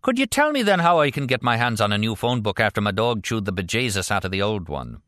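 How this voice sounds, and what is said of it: Rusty Irish accent. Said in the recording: “rusty Irish accent”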